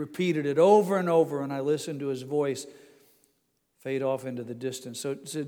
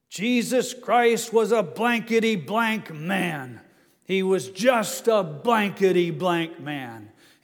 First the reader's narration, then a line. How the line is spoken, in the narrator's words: He was hoarsely screaming